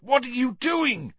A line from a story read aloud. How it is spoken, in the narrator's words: yelled Cedric's voice